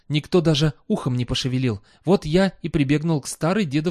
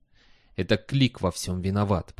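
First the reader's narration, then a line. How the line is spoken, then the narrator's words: Whisper. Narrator (Russian): прошептал он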